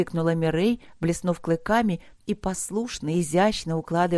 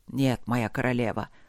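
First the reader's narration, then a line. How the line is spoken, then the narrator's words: Regretful sigh. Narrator (Russian): вздохнул с неподдельным сожалением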